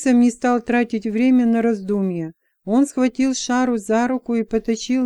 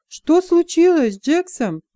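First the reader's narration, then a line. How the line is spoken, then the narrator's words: Exclamation. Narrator (Russian): воскликнула Шара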